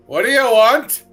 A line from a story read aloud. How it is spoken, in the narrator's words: In common shouts out